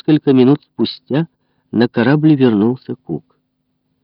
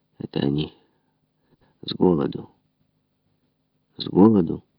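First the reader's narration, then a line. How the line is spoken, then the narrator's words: Muttered. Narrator (Russian): бормотал он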